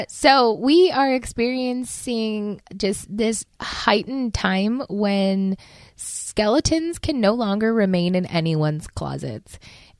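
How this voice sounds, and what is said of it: Raspy, slightly odd-sounding voice. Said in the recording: “I am not feeling the best ... raspy voice. Maybe it's not as raspy as I think. It's probably still really high-pitched, but it sounds odd”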